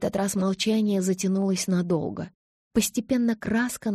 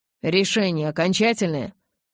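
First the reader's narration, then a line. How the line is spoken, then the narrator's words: Menacing question, father. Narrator (Russian): грозно спросил папа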